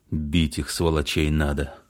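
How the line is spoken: Angry speech. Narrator (Russian): Илюшин, зло вращая глазами, сказал

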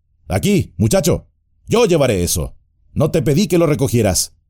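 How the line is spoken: Shouting. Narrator (Spanish): gritó, volviéndose bruscamente

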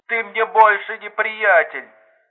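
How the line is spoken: Offended reply. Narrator (Russian): обиженно ответила трубка

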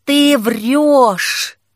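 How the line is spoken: Hissing. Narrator (Russian): зашипела Дайна

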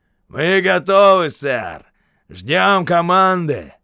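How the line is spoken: Shouted. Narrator (Russian): крикнул он командиру батареи, майору

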